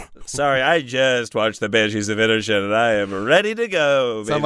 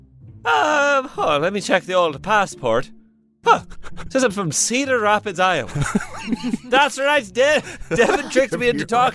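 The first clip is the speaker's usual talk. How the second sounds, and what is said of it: Exaggerated, garbled fake Irish accent. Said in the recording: “turn up the volume on the Irish accent ... It sounded like an Irish man drowning ... Sound like Animal from The Muppets was Irish.”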